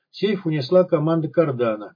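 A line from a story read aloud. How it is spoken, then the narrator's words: Flat toneless. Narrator (Russian): бесцветным голосом сообщил посетитель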